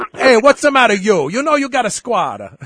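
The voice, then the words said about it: Put-on Italian accent. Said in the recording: “a little Italian accent”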